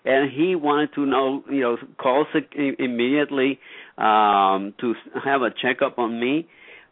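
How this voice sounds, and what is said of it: Puerto Rican accent. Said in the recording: “I am originally from Puerto Rico... We all have accents... my accent, you know, gave me away”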